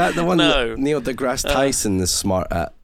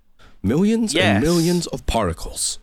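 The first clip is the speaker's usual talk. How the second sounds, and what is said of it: Neil deGrasse Tyson impression. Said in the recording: “That's my Neil deGrasse Tyson voice. ... That's a pretty good impression.”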